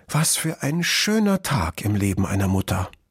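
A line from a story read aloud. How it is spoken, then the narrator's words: Moved sigh, mother fox. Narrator (German): seufzte die Füchsin gerührt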